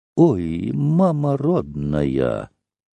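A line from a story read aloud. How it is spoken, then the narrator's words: Dazed sighing whisper. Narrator (Russian): Санька одурела, как безумная, вдруг вздохнула и шепотом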